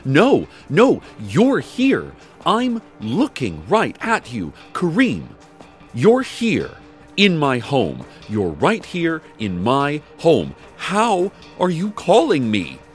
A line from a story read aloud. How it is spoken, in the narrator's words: she only screamed into the phone saying